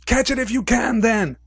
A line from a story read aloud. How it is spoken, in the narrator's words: he shouted